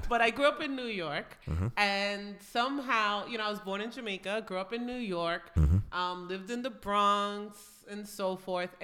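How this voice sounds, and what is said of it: Nasal New York accent. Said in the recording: “I developed a very Northeastern accent ... I developed a nasally Jewish, ... very Jewish, ... person's accent ... my interpretation of a New York accent ... This is how you talk. You sound like this every day.”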